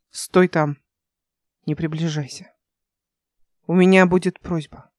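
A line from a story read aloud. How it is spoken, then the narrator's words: Quiet speech. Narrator (Russian): тихо сказала она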